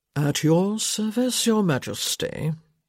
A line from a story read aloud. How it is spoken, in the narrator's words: he murmured